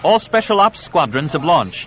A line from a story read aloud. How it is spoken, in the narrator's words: Yella called out above the clamor of the command chamber